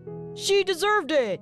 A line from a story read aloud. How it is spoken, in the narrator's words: shouted someone from the crowd